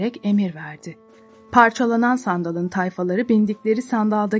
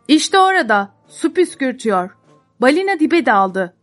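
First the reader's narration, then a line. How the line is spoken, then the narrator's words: Group shouting announcement. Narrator (Turkish): diye bağırarak haber veriyorlardı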